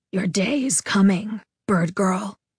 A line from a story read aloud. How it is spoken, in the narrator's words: he whispered